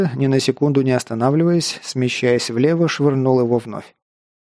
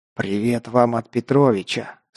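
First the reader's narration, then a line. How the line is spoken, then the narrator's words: Hissing into ear. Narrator (Russian): прошипел ему на ухо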